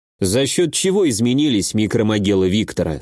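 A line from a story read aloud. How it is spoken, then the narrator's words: Plain. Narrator (Russian): спросил я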